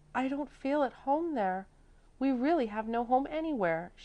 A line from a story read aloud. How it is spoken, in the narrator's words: she said with suppressed sobs